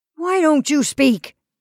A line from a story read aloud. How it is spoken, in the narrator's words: Kelly demanded angrily